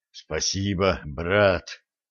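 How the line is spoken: Relieved exhale, driver. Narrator (Russian): облегченно выдохнул водитель

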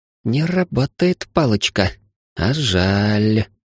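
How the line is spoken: Drawn out. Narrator (Russian): протянула убивашка

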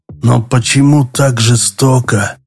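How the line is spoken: Whisper. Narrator (Russian): прошептал Седой

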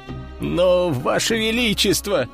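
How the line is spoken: Whimpering man. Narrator (Russian): проскулил мужчина

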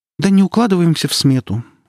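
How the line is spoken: Sighing. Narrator (Russian): вздохнула Каирис

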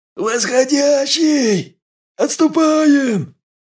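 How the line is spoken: Frantic, distorted yell. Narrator (Russian): заорал не своим голосом остроухий

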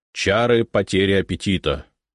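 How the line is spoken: Stern announcement. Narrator (Russian): грозно нахмурившись, объявил

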